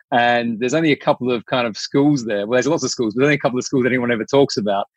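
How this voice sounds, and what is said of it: Posh South Australian accent. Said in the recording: “I was detecting an Aussie accent, but I could tell it was a South Australian accent too... there is a really subtle difference there... It's a posh accent.”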